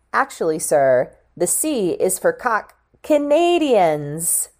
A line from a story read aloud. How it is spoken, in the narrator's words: Judith exclaimed